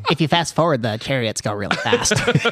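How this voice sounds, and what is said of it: Nerdy put-on voice. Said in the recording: “What is the nerd voice for?”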